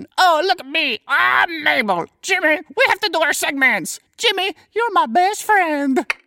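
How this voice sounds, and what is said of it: Imitates another person's voice. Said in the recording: “my Mabel impression”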